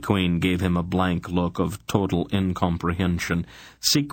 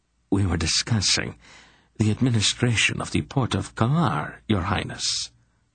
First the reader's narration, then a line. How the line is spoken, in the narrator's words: the Count reminded her gently